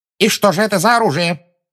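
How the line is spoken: Sharp question. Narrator (Russian): резко спросила Амбридж

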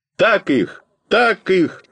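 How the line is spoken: Full-throated yell. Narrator (Russian): заорал я во все горло

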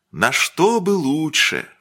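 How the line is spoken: Sigh. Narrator (Russian): вздохнул он

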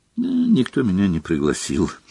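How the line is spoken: Sad. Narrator (Russian): печально ответила Парвати

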